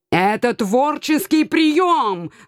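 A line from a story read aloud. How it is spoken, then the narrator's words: Loud cat wail. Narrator (Russian): взвыл кот, так что многие обернулись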